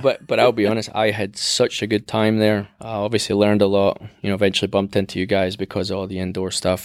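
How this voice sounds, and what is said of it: Scottish accent. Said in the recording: “I'm the only person with an accent in this whole building. It's Scottish, maybe?”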